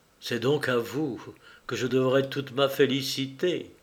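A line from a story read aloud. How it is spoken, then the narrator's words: Tender, moved voice. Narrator (French): il lui dit d'une voix attendrie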